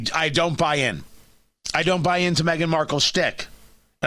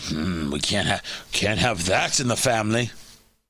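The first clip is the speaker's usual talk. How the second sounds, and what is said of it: Put-on British accent. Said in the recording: “That's my accent, by the way. That's the best I can do. I didn't watch enough Monty Python as a kid.”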